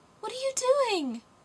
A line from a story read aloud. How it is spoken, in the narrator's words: cried the little girl